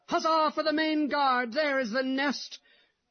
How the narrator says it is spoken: Others cried out

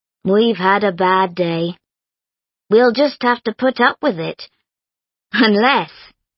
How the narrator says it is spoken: added cheerfully

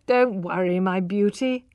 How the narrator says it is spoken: laughed Alec

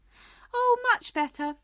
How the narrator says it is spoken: cried, her voice getting higher and higher as she went on

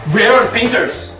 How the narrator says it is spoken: He shouts

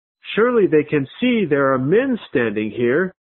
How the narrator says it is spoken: exclaimed

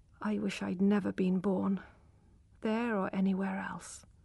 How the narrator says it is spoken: said quietly

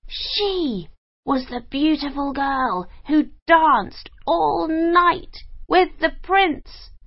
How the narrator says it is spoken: cried their mother

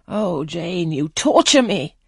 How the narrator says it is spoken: he exclaimed

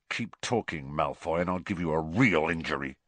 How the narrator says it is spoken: snarled Ron

